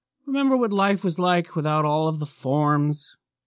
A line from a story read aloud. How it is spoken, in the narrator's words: Bill sighed